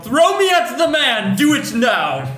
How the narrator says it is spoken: yelled

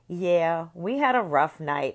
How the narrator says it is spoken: I said in a snide tone

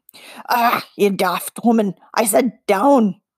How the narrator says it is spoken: rasped Cull

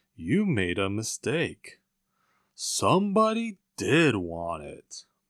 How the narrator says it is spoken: said Poop solemnly

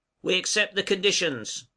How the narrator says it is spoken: cried Pizarro

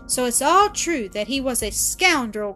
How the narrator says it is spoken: cried Mrs

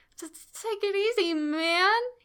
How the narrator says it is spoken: he said, his voice incredibly shaky

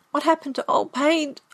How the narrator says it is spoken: I cried

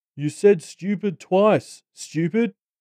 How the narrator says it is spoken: jeered

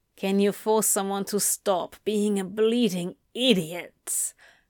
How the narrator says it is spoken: Anthony growled back

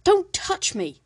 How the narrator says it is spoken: snapped

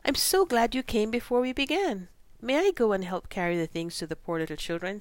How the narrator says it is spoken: said Beth eagerly

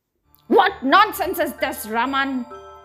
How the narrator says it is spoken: yelled angrily

